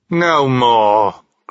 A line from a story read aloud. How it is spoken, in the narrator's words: cried Scrooge